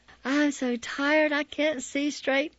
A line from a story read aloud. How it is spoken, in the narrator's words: sigh